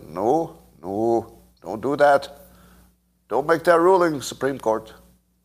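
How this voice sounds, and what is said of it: Poor put-on Canadian accent. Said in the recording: “I can't do a Canadian accent... That's a terrible accent”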